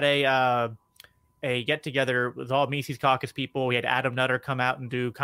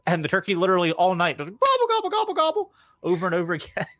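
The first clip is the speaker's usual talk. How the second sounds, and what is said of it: Turkey gobbling impression. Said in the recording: “to do a turkey impression”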